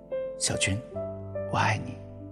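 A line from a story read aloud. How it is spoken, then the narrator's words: Murmuring. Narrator (Chinese): 我喃喃地说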